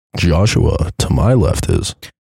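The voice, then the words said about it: Exaggeratedly deep voice. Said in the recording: “that was a really deep voice”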